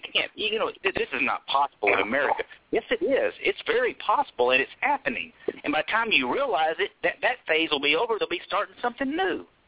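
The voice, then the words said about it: Southern American accent. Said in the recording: “both of y'all have a southern accent”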